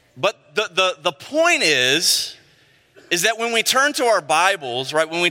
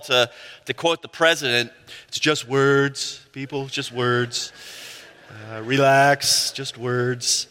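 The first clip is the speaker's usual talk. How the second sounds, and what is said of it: Poor impression of the president. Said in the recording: “It's a terrible impression.”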